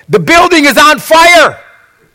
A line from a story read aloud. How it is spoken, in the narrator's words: someone rushed in and shouting